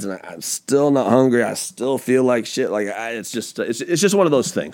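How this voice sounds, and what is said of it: Unwell, rough-sounding voice. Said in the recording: “why my voice sounds awful”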